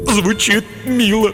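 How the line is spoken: Sobbing. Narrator (Russian): всхлипнул тупица

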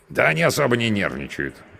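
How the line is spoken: Wry snort. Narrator (Russian): хмыкнул мой спутник

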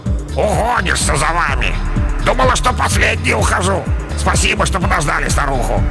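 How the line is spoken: Grumbling. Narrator (Russian): Вешалка проворчала

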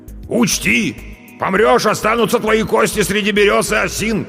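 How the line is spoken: Shouting after someone. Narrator (Russian): кричал он мне уже в спину

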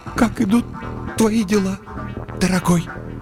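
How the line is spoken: Strained, unhappy. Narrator (Russian): выдавила из себя несчастная

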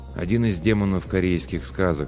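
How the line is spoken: Calm reply. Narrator (Russian): спокойно ответил Ким

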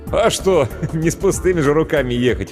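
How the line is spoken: Chuckling. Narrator (Russian): хохотнул Иван

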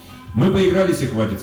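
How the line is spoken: Plain. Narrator (Russian): сказал он

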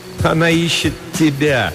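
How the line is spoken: Laughing. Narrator (Russian): Харра засмеялась

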